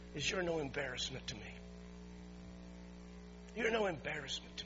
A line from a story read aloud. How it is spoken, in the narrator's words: whispered in a whisper